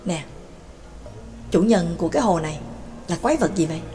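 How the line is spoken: Whispered question. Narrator (Vietnamese): Ca Phù thì thầm hỏi nhỏ

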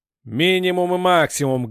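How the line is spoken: Loud barking shout. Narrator (Russian): гаркнул первый

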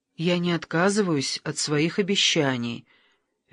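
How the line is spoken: Strained calm voice. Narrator (Russian): Вера старалась говорить спокойно

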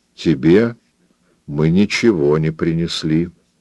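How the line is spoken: Even flat voice. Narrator (Russian): сказал Роберт Джордан ровным голосом

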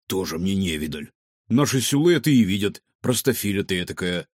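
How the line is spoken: Grumbling. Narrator (Russian): заворчал Варивода

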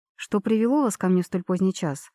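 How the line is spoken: Forced calm, hidden agitation. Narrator (Russian): спросила я, стараясь, чтобы голос звучал спокойно, несмотря на дикое волнение

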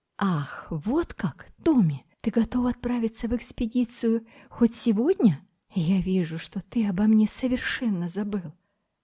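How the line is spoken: Excited girl exclaiming. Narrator (Russian): девушка возбужденно воскликнула

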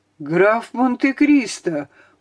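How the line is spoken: Horrified exclamation. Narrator (Russian): в ужасе воскликнул Данглар

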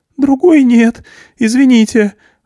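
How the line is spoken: Trembling voice. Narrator (Russian): ответил дрожащим голосом Груша

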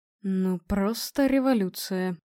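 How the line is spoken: Mutter. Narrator (Russian): пробормотал профессор Иванченко

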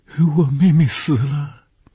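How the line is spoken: Crying girl. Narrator (Chinese): 可怜的女孩，见着红鱼便哭起来

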